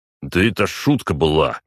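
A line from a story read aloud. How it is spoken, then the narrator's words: Snapping retort. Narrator (Russian): огрызнулся Толстой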